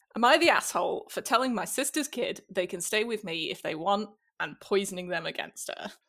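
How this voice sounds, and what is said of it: Strong Northern English accent. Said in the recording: “from the north of England, where I'm from... my accent is likely gonna get stronger just by virtue of the slang... Now, the accent comes out in the very first sentence.”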